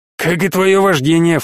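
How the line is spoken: Snorting. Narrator (Russian): фыркнул Олли

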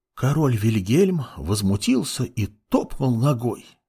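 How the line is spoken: Whispering to a child. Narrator (Russian): шептала мать ребенку

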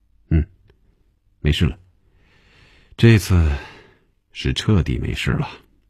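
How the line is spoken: Relieved sigh, nasal snort. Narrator (Chinese): 红军笑了，叹了口气，从鼻子里哼了一声说

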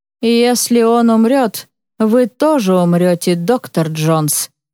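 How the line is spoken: Plain. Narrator (Russian): говорит Фахим

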